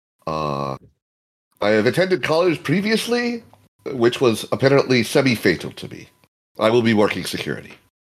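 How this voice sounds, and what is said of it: Boston accent. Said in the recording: “As you can tell from my accent, I am from Boston.”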